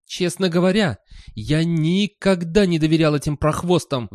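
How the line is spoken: Roar. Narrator (Russian): взревел он

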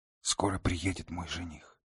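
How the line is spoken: Very quiet. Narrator (Russian): продолжала она по-прежнему очень тихо

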